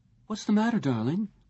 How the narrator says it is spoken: Lisa asked him uneasily

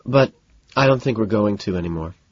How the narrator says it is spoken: sighs

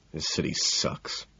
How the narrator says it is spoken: I mutter

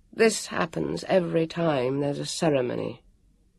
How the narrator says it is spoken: he said wearily

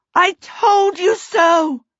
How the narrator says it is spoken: Sophie screamed

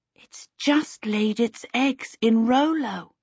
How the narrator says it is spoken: Charmaine whispered

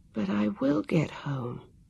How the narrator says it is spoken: told herself, sleepily

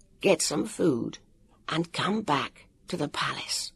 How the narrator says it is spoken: he whispered

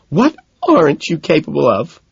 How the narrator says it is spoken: She asks, sobbing

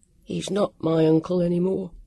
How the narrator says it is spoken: he said thickly

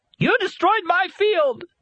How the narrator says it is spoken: shrieked

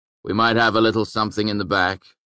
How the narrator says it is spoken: Coach said

